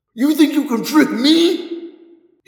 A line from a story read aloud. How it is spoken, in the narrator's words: he shrieked